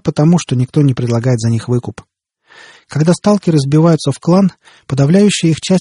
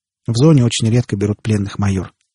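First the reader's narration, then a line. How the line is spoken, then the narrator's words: Sighing. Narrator (Russian): вздохнул торговец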